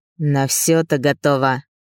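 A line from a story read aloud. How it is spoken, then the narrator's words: Vicious bark. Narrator (Russian): зло рявкнул он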